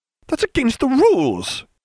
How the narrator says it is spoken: Hermione cried

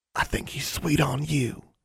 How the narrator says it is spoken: Innocence whispered conspiratorially

